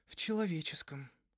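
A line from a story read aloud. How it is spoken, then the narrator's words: Sighing. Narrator (Russian): вздохнула Изи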